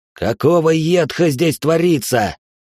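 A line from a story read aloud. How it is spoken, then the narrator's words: Growled. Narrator (Russian): прорычал Лайтнер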